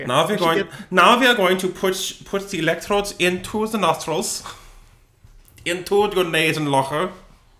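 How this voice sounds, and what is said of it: German-accented mad scientist voice. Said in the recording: “Can you do like a German accent? ... I just become like a mad scientist.”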